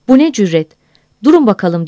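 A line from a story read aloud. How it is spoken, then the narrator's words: Crying out. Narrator (Turkish): diye haykırdı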